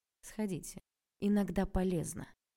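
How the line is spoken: Icy tone. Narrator (Russian): сказал Олег все тем же ледяным тоном

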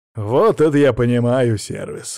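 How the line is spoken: Snorting remark. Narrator (Russian): хмыкнул я

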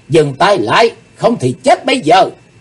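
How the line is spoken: Loud shout. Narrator (Vietnamese): Chí Tôn hét lớn

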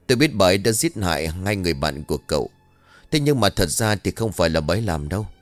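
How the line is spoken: Strained, pained voice. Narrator (Vietnamese): Nó gằn giọng với ánh mắt đau đớn, lão nói tiếp

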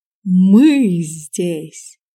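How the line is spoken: Improvised in deep bass. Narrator (Russian): не выдержал и симпровизировал Мион басом

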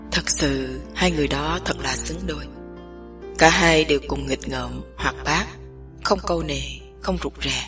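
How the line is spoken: Low hoarse voice after pause. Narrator (Vietnamese): Chàng ngưng bặt lại, một lúc sau mới nói tiếp bằng một giọng trầm thấp và khàn đục

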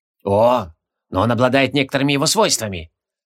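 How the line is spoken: Increasingly bored voice. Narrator (Russian): Все более скучающим голосом ответил Себастиус

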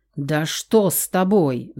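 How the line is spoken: Roar. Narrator (Russian): взревел Давид

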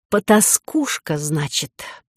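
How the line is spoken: Hissed. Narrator (Russian): прошипела Лизавета

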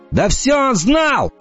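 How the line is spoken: Shouting. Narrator (Russian): закричал Енах

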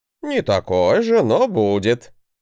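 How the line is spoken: Chuckling. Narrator (Russian): хохотнул мой учитель

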